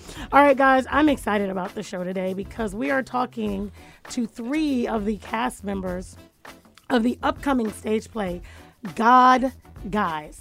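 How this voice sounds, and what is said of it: Slightly hoarse voice. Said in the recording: “I think my voice is a little hoarse.”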